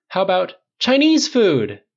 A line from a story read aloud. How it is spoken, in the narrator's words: Tony and Clint cried in unison